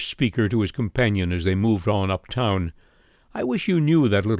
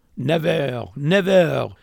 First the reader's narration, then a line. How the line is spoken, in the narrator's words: exclaimed Monsieur